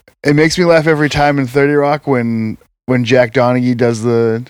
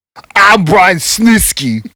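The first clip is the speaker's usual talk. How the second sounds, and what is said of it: Imitates another person's voice. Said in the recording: “try to do a Tracy Morgan impression? ... Not as good as I thought it was going to be at first”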